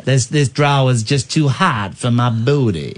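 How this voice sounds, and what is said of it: Put-on Southern American drawl. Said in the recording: “That's supposed to be like a southern accent.”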